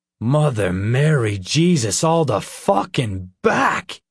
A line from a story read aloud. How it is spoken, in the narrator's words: he cried